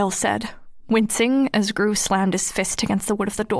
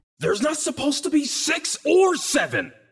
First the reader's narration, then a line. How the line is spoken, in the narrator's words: Gru roared in his unearthly voice